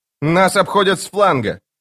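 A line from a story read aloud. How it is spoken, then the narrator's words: Shouting. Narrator (Russian): крикнула она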